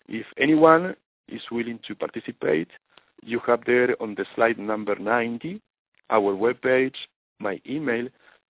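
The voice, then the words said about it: Non-native English accent. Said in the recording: “I apologize for my accent. It's not the best English you usually hear ... Your accent is wonderful, and we understand you very clearly”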